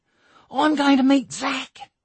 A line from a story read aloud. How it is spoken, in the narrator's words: squealed Ruth